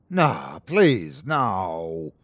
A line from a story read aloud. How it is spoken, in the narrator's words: Don moaned